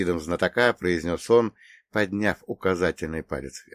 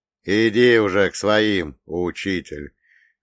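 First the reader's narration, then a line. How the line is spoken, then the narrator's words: Short chuckle. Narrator (Russian): хохотнул Фролов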